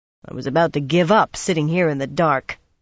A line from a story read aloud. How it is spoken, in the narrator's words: Pevara growled